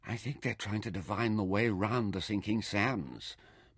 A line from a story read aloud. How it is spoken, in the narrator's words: Mintaka whispered